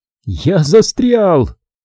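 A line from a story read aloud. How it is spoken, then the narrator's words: Shouted. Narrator (Russian): выкрикнул я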